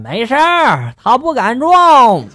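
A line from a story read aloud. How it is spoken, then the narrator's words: Old man, loud. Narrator (Chinese): 老头大声的就说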